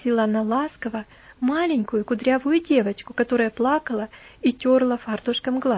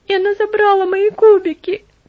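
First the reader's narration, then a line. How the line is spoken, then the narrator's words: Sobbing child. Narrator (Russian): всхлипнул ребенок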